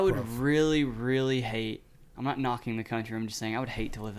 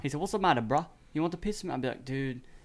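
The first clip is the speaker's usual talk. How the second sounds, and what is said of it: British street accent imitating Eggsy. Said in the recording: “The way that, like, Eggsy, like, street talks, I hate that. ... With your accent, I can't. ... you're mixing old English with new English. It's not good.”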